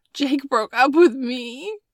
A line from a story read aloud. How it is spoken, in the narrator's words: Maddie sobbed